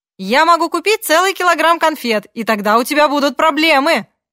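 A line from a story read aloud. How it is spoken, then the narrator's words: Shouting. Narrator (Russian): прокричал Мартин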